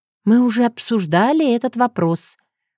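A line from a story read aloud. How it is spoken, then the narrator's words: Sighing. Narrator (Russian): вздохнула я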